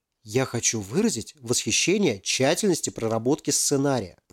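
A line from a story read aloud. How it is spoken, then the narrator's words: Whispering. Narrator (Russian): прошептал он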